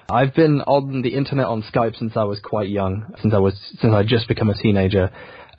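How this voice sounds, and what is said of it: Very British English accent, not Yorkshire. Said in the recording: “very British ... being British, being English ... slowly made myself talk more like this ... I was born in Yorkshire. Like, this isn't how we talk.”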